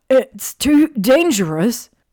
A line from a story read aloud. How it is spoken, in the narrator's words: Ron gasped, hardly able to breathe